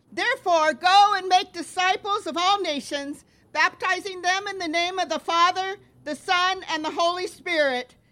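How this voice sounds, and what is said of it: Loud, projecting teacher voice. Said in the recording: “I'll try to talk loud ... This is my teacher voice”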